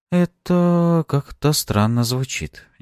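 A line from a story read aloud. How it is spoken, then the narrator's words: Unsure mumble. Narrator (Russian): неуверенно пробормотала боярыня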